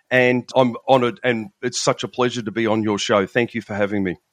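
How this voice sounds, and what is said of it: Australian accent. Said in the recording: “by my accent, people will recognize... I'm from Melbourne in Australia”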